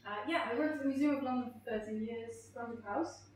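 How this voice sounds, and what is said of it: Strange German-sounding Dutch accent. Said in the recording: “a very strange German accent, you're right, because he's from the Netherlands”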